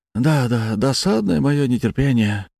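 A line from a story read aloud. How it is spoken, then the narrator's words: Sighed. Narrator (Russian): вздохнул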